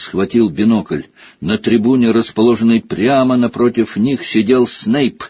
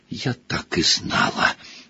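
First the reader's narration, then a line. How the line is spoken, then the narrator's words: Breathless exclamation. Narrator (Russian): Выдохнула Гермиона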